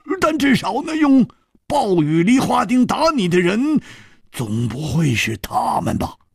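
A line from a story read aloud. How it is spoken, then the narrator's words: Sudden loud voice. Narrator (Chinese): 胡铁花忽然大声地说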